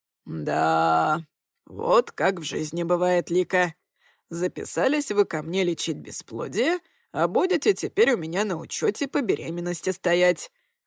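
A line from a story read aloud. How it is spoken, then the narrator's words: Chuckling. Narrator (Russian): хохотнул доктор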